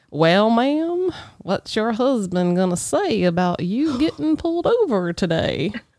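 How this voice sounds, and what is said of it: Put-on Southern accent, older man. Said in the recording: “got a little bit older than me, had the belly, had the Southern accent.”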